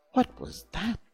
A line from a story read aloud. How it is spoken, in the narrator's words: she asked timidly